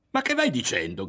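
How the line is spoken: Shouting. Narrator (Italian): gridò

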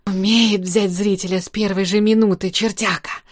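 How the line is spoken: Whispered. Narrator (Russian): прошептал Царьков

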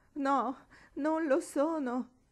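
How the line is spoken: Moaned. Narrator (Italian): gemette Marigold

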